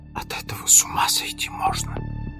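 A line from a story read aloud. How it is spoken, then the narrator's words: Whisper. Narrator (Russian): шептала Лоран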